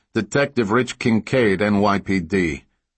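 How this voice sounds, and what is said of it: Booming Brooklyn New York accent. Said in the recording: “a spot-on New York accent ... In his booming Brooklyn voice”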